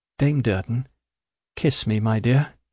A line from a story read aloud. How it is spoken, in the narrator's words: he said in a weak voice, but with his old smile